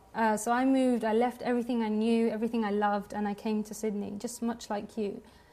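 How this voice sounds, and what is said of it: Non-local accent. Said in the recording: “you could probably tell by my accent, I'm not a local.”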